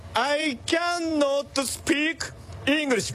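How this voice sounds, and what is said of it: Weird put-on Dandenong accent. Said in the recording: “That is the weirdest Dandenong accent I've ever heard.”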